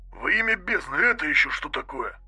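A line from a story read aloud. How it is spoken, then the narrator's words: Breathed out. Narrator (Russian): выдохнул Кирион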